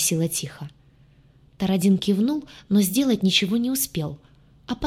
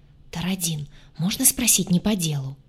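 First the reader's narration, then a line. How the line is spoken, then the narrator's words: Whisper over shoulder. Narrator (Russian): шепнула через плечо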